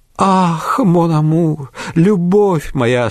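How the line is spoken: Moaning passionately. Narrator (Russian): стонала Адель фон Стерча

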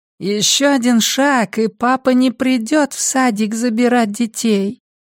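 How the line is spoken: Criminal's childlike voice. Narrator (Russian): сказал преступник таким же детским голосом

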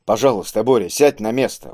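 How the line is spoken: Calm repetition. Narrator (Russian): уже спокойно повторил Киск

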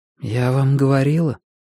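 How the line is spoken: Quiet calm voice. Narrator (Russian): сказала Рэйчел тихим, но совершенно спокойным голосом

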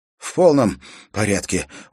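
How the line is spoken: Dry rasping croak. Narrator (Russian): удалось ему прохрипеть пересохшим ртом

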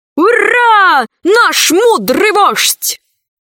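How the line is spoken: Group shouting. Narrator (Russian): закричали пришельцы

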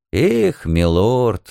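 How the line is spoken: Sighing together, group. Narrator (Russian): дружно вздохнули все

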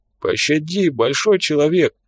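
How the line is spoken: Whimpering plea. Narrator (Russian): заскулил упавший

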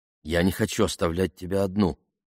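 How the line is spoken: Mumbling. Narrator (Russian): промямлил Бен

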